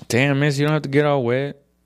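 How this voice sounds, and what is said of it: West Side Mexican-American accent. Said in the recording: “I overdid the Mexican accent, because he didn't have a Mexican accent at all. He had a West Side Mexican-American accent. West Side of San Antonio.”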